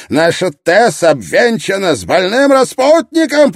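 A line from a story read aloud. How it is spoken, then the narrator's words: Shouted. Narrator (Russian): прокричал он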